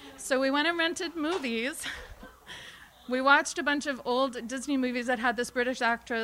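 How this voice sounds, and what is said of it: Usual voice. Nothing is said of it.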